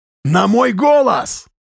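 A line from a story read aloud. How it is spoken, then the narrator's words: Continuous shouting. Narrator (Russian): Тимуров кричал, не останавливаясь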